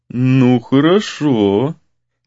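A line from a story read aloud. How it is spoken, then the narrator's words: Skeptical drawl. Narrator (Russian): скептически протянул Гризли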